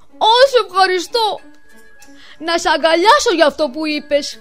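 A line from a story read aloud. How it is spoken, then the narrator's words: Excited shout. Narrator (Greek): φώναξε ο Κόλιν ενθουσιασμένος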